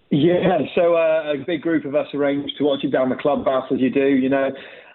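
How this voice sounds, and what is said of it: Bristolian accent. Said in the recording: “A bit of a Bristolian accent”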